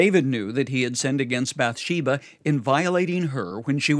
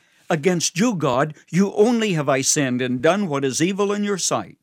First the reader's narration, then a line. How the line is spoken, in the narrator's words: he cried out